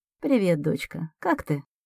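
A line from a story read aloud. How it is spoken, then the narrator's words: Tender mother asking. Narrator (Russian): нежно спрашивает мама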